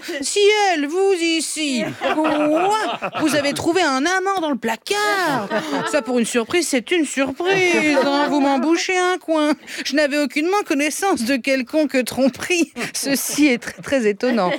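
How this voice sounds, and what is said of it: Hammy, exaggerated stage-play acting voice. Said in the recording (French): “je joue mal en plus, on dirait du théâtre de boulevard ... Un peu longue, cette imitation.”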